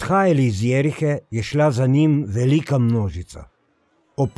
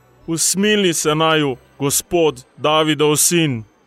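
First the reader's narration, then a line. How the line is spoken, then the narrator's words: Shouting even louder. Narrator (Slovenian): Ona dva pa sta še bolj zavpila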